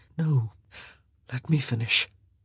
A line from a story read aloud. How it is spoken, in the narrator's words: he said, his voice suspiciously hoarse